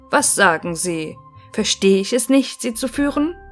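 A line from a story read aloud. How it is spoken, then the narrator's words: Young man calling out. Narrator (German): rief der junge Mann von der Spitze des Zuges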